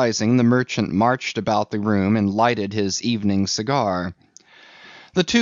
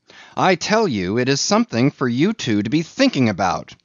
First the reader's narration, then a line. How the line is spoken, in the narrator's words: he cried